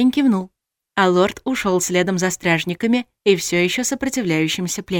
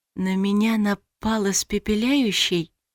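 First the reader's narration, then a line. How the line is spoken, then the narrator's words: Whisper. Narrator (Russian): прошептала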